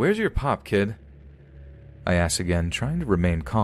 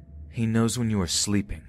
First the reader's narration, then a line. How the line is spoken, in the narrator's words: the kid mutters